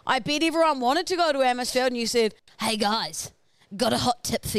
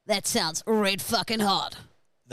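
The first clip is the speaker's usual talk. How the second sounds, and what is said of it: Imitates another person's voice. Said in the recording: “That is a good impression.”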